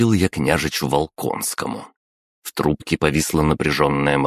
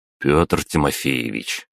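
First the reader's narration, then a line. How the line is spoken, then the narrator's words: Resigned sigh. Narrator (Russian): обреченно вздохнул я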